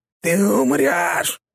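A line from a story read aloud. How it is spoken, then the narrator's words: Growling. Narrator (Russian): прорычала она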